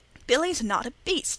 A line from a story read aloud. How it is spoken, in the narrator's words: said Wesley hotly